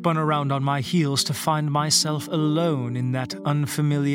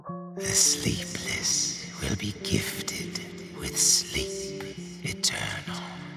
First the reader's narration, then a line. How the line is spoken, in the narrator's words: a voice behind me, one that didn't come from human lips, and which said to me in raspy tones